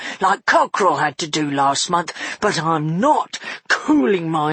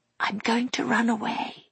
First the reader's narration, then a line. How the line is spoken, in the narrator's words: she whispered